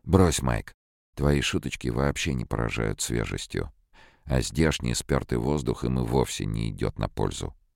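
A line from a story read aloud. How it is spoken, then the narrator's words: Weary. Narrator (Russian): Пауэлл устало произнес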